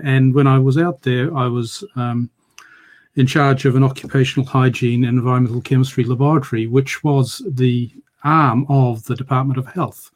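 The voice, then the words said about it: Slight New Zealand accent. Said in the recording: “you might recognize the accent as being slightly New Zealandish”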